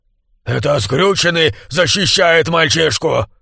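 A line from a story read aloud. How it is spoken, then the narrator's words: Growl. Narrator (Russian): прорычал самый доверенный помощник Лероя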